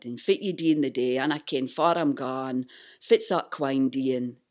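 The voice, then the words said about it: Broad northeast Scottish dialect. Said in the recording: “when I go back to my hometown in northeast Scotland, I start speaking like”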